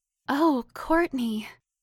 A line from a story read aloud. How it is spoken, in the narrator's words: Kaylin gasped loudly